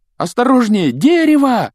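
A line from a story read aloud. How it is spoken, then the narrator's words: Yelling. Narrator (Russian): завопил Гарри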